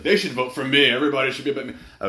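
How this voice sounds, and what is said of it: Imitates another person's voice. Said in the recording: “I can't really do a Trump impression.”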